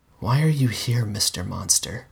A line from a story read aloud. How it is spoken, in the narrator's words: I whispered